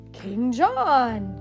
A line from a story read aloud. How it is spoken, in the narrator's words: gasped Max